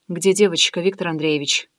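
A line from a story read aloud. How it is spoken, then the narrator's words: Quiet question. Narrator (Russian): тихо спросила я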